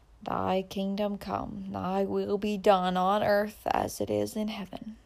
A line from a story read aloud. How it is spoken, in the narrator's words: the older man repeated softly